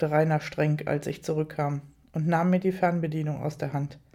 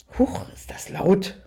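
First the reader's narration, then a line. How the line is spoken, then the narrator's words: Startled gasp. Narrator (German): keuchte erschrocken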